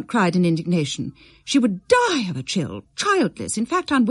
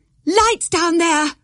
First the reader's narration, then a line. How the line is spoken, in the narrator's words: Valeria shouted above the music